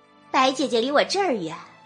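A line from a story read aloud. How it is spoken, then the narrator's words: Friendly, smiling. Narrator (Chinese): 林姨娘……和气的笑着说道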